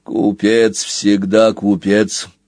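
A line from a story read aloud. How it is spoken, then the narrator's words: Turtle grumbling. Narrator (Russian): проворчал черепах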